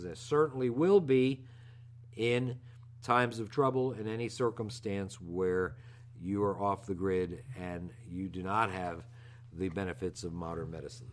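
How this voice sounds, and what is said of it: Out of breath speaking. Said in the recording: “Are you out of breath? ... I am out of breath.”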